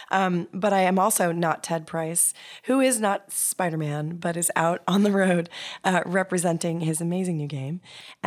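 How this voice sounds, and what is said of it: Slightly hoarse voice. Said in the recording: “You may have already noticed from my voice that I'm a little bit hoarse from PAX”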